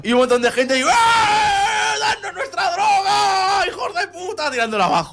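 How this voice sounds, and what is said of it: Shouting. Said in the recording (Spanish): “no grites ... en este podcast gritas mucho”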